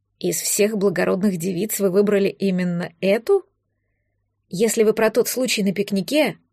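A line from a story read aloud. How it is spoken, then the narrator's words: Quiet whisper. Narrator (Russian): Император тихо прошептал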